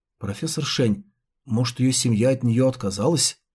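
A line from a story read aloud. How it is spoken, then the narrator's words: Whispered question. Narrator (Russian): Го Чан Чен шепотом спросил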